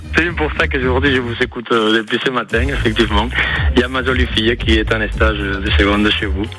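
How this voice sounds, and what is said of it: Slight Spanish accent in French. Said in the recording (French): “mon petit accent espagnol”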